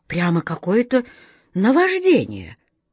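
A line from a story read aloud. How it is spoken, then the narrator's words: King's upset sigh. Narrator (Russian): король огорченно вздохнул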